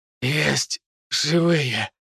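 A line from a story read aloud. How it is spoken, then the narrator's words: Hoarse wheeze. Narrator (Russian): прохрипел я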